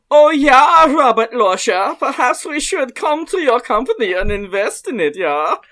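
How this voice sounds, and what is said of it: Put-on German accent. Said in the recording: “I can do a good German accent... I think German is probably the good default.”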